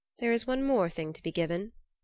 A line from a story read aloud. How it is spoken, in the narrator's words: said Loki